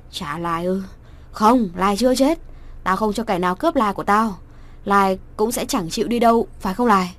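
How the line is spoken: Dazed loud shout. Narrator (Vietnamese): Nhị ngơ ngẩn rồi đứng dậy hét to

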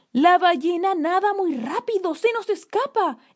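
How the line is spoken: Man exclaiming. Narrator (Spanish): exclamó un hombre Yamana

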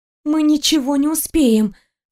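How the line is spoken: Breathless. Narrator (Russian): выдохнула я

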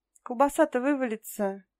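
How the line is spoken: Laughing. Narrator (Russian): засмеялась Янка

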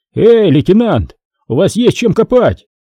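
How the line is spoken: Shouted. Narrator (Russian): Синченко закричал

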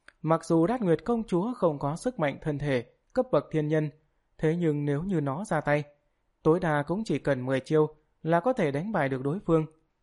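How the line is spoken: Smiling speech. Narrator (Vietnamese): Tam Vĩ Thường Hổ Vương mỉm cười, nói

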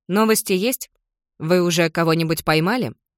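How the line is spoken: Casual tone. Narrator (Russian): Интересуюсь небрежным тоном

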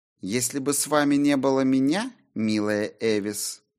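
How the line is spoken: Purring. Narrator (Russian): промурлыкала Сильвия

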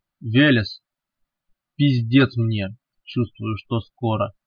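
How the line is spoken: Strong clear voice. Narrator (Russian): неожиданно крепким и чистым голосом сказал ляп

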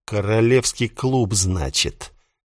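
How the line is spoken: Surprised snort. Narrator (Russian): Я удивленно хмыкнул

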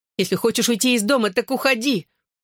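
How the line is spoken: Tearful shout. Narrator (Russian): выкрикнула, а по щекам потекли горячие слезы

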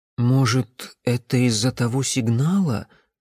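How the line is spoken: Timid suggestion. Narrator (Russian): робко предположил Никола

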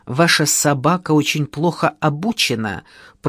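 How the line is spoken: Young woman, through gritted teeth. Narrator (Russian): процедила девица

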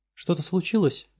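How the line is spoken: Confused question. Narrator (Russian): растерянно спросила Габу управляющего

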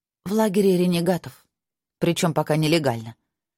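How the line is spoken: Gloomy. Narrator (Russian): мрачно сказала Наста

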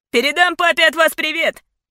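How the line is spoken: Delighted near squeal. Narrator (Russian): миссис Ларк чуть ли не взвизгнула от восторга

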